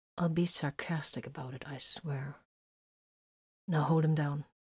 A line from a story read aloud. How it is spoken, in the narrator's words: the blood drinker threatened in a low voice